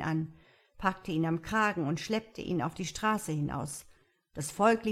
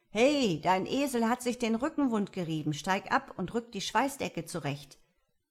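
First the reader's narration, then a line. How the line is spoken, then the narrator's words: Caravan leader calling out. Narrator (German): Ein Karawanenführer rief mir zu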